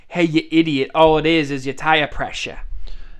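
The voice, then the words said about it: Bad put-on Boston accent. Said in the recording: “Only if you went to an AutoZone in Boston... the Hall of Fame of bad imitations, of bad accents”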